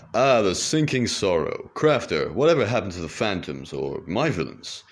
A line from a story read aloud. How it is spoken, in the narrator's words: The master crafter laughed